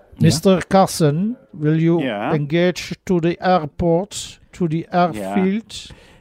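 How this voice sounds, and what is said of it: English with a put-on German accent. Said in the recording (Dutch): “ik doe het nu een beetje met een Duits accent”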